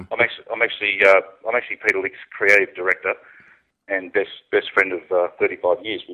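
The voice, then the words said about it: Australian accent. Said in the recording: “the Australian accent.”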